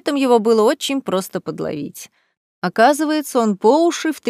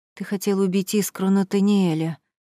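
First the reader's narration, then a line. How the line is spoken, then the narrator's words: Breathed out. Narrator (Russian): выдохнула я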